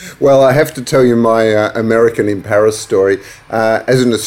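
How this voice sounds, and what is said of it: Usual voice. Nothing is said of it.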